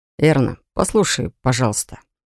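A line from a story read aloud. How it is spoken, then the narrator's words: Gentle. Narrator (Russian): мягко начал парень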